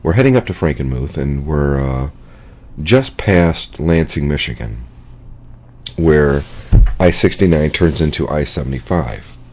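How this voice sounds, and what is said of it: Scratchy, hoarse voice. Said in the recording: “that's my voice ... my voice is probably a little scratchy tonight”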